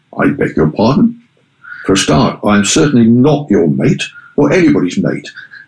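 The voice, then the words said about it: Posh upper-class English voice. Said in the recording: “in a rather posh voice”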